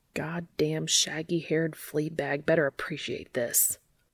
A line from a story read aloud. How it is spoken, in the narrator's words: grumbles under his breath